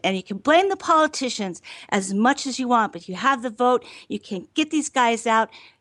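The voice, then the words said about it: Angry, heated speaking tone. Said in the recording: “I sound very angry”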